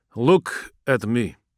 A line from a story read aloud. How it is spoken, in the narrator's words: he said slowly